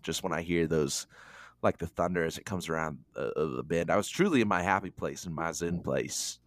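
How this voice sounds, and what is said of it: Slight Southern accent. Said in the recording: “I can even hear a little accent coming out with you ... To the south.”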